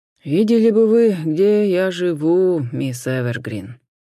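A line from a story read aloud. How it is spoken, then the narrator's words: Weary sigh. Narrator (Russian): Вздохнул смуглый сержант, устало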